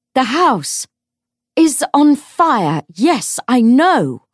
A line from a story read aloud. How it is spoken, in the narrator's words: shouted